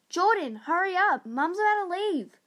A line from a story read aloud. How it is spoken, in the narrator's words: He yelled out